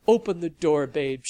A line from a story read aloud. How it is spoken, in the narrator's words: she cried